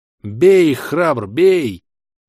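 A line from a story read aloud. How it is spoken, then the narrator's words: Hoarse yelling. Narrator (Russian): хрипло вопил я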